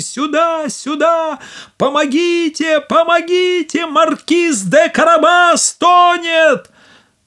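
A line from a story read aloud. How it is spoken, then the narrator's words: Cat shouting at full voice. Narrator (Russian): Кот закричал, что было мочи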